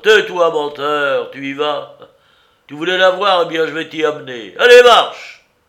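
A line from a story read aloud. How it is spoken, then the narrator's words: Harsh yelling. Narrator (French): hurlant comme pour faire partir un cheval rétif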